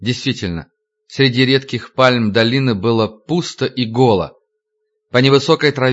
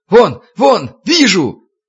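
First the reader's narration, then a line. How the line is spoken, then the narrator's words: Many voices yelling. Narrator (Russian): Сначала завопил стрелок с востока, следом немедленно заголосили пятеро дозорных с запада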